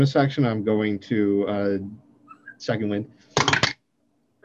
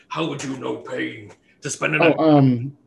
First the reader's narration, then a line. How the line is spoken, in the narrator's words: this thing bellows back and it says